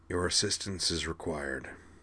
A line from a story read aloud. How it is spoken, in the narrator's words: said hoarsely